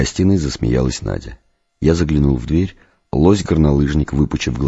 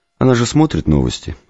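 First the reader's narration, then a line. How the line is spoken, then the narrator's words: Calm answer. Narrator (Russian): спокойно ответила Светлана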